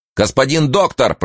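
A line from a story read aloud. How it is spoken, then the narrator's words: Shout from darkness. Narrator (Russian): прокричал Студзинский из тьмы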